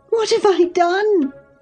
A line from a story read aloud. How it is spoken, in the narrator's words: sobbed she, instantly checked